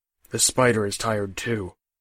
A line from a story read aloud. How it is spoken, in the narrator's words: Burnish said